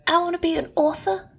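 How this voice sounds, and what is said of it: Cute little childlike accent. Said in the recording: “your cute little accent”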